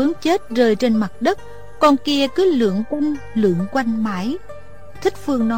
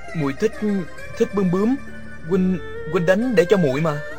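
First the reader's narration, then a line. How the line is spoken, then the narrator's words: Flustered stammering. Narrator (Vietnamese): Địch Dân ... bối rối, ấp úng nói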